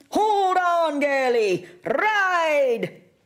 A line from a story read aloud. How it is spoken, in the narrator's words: McLeod ran close behind us, shouting